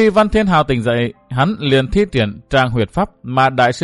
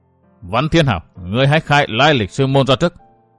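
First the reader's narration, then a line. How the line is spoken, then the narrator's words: Cold. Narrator (Vietnamese): Hàn Thiên Thọ lạnh lùng nói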